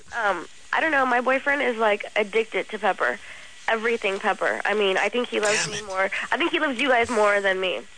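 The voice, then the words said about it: Sick-sounding voice. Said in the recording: “I'm kind of sick, so that's why my voice is up.”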